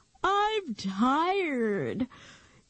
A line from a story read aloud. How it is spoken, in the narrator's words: Nikki announced